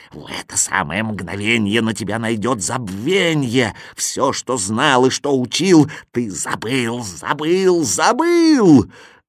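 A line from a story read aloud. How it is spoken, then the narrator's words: Old woman hissing. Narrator (Russian): Старуха стала шипеть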